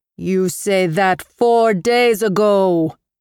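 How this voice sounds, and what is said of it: Thick Armenian accent. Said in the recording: “his Armenian accent thick like harissa”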